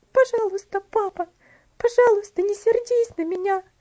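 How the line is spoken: Little girl sobbing. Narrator (Russian): всхлипывала девочка

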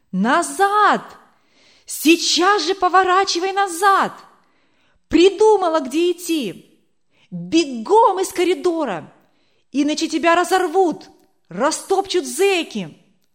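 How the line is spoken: Running officer shouting. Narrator (Russian): бегущего высокого офицера, который кричал ей

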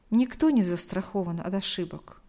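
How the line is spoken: Sighed. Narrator (Russian): вздохнула Галина Николаевна

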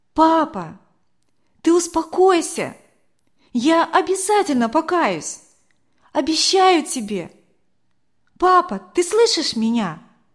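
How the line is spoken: Loud, into ear. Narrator (Russian): громко так ему в ухо сказала

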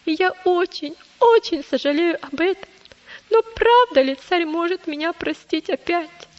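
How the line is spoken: Sobbing child. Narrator (Russian): прорыдал маленький христианин

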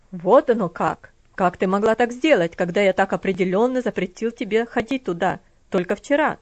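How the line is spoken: Cold, harsh question. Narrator (Russian): спросил холодным, жестким тоном

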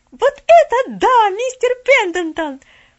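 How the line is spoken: Shout. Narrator (Russian): закричала она

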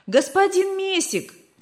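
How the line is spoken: Shouting. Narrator (Russian): кричал он

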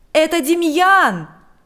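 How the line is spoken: Shout. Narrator (Russian): закричал он

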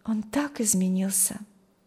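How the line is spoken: Sighing. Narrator (Russian): вздохнула Маргита

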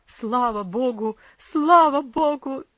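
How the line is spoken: Relieved cry, then sobbing. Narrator (Russian): закричал отец … громко зарыдал

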